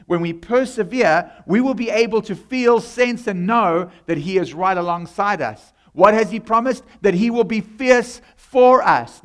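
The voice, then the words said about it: South African accent. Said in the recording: “that's where my accent is from ... the heavenly dialect of South African. Well, I come from South Africa”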